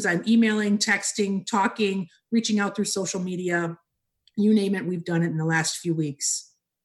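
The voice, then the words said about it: Hoarse voice. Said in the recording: “I have a cough drop stuck in my cheek while I'm talking to you, only because I'm hoarse from nonstop talking”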